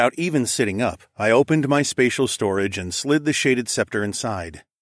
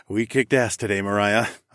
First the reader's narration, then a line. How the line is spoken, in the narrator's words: chuckled